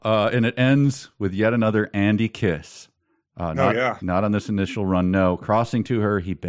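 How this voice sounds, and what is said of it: Usual voice. Nothing is said of it.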